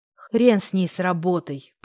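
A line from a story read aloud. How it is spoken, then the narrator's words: Grumbling mutter. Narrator (Russian): пробурчал я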